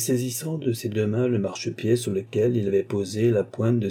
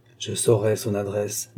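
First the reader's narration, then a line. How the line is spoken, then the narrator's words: Murmuring. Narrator (French): murmura-t-il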